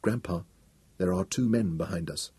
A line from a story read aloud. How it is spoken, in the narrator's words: Wanda said softly